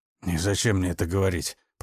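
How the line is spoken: Grumbling. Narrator (Russian): пробурчал он

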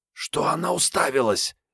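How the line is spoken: Furious hoarse rasp. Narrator (Russian): яростно прохрипела Мариетта

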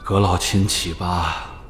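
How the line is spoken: Softened sigh. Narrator (Chinese): 李建恒在恭贺声里缓和了些许，不禁叹道

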